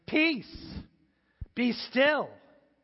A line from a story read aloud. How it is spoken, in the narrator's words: Jesus shouted